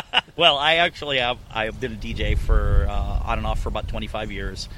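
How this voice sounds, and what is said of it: Usual voice. Nothing is said of it.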